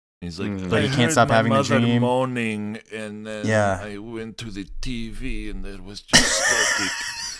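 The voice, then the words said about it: Put-on Turkish accent in English. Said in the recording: “That was a really good Turkish accent, but in English.”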